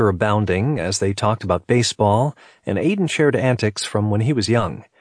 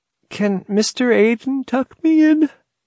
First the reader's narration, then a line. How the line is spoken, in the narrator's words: Emily asked sleepily, her words interrupted by a large yawn